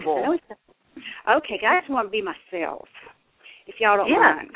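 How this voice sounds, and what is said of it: Strong regional accent. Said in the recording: “my accent is not going away ... It sounds wonderful.”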